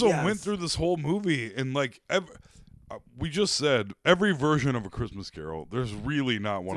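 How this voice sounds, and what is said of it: Usual voice. Nothing is said of it.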